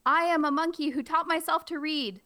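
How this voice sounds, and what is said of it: Silly monkey character voice. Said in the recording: “with my monkey mouth in my monkey voice”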